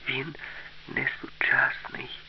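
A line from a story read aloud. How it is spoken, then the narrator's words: Quiet, frightened. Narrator (Ukrainian): сказала Аліса тихо і сама злякалася свого відкриття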